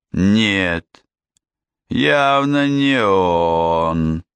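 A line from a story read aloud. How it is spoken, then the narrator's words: Man drawling. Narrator (Russian): протянул мужчина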